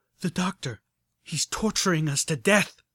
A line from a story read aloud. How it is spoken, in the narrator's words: told me urgently